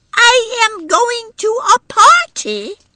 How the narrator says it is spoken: little Edie had confirmed the business by shouting

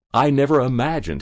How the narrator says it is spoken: chuckled

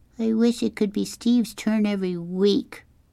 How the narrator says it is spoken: Kevin whined

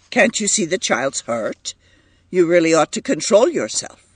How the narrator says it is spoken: he said sharply

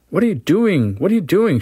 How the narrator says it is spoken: she cried in horror

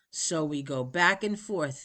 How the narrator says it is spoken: the actor said

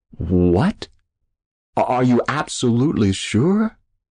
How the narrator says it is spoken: He finally stammered

